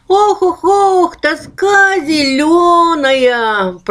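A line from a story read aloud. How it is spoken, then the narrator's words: Ghostly moan. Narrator (Russian): простонало привидение, которого звали Ох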